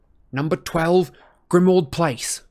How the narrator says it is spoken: Harry said loudly and clearly

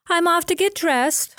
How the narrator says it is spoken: Florence announced cheerfully

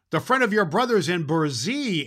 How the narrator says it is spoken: answered Claus

